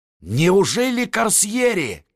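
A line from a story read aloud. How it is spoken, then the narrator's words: Shouted. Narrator (Russian): крикнул он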